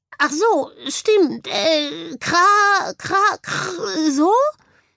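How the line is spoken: Bird croaking. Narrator (German): krächzte daraufhin der Vogel

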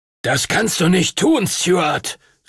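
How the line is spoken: Thundering shout. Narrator (German): rief er donnernd

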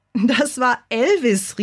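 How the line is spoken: Calling out. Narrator (German): rief

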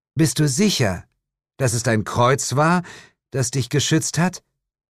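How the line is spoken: Calling out. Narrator (German): rief Jane

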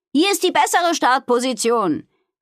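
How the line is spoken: Calling out to others. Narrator (German): rief sie den anderen zu

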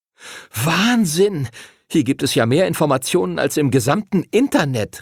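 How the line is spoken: Excited call. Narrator (German): rief Arthur aufgeregt

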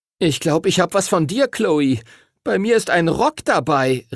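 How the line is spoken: Horrified cry. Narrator (German): rief Timothy entsetzt

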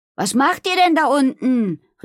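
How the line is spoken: Calling out. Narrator (German): rief sie

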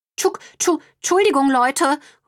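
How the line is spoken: Calling after. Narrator (German): ruft Brownie ihnen hinterher

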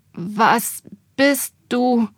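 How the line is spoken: Melodramatic stammer. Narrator (German): stammelte ich wie der Held in einem schlechten Film

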